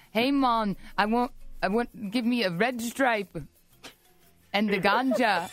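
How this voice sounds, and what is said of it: Put-on Jamaican accent. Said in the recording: “practice your Jamaican accent ... A Jamaican. ... I don't know what else to say in Jamaican.”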